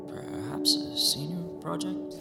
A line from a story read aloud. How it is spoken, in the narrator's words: He muttered